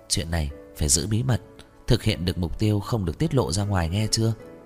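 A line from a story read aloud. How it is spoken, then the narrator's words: Instructing. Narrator (Vietnamese): Trình Nặc dặn dò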